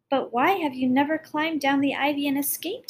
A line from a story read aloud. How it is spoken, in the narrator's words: he cried